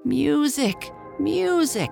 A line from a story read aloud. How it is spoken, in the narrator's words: cried the emperor